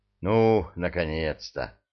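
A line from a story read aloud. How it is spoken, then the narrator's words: Relieved sigh, many voices. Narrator (Russian): Облегченно вздохнули все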